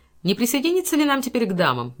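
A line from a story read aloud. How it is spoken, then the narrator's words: Carefree tone. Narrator (Russian): беспечным тоном спросил Каупервуд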